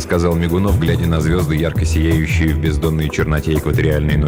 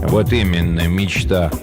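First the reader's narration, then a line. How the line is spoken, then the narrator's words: Gloomy. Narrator (Russian): мрачно отозвался Горюн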